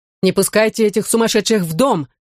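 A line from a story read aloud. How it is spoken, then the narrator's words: Shouting. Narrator (Russian): крикнул Никита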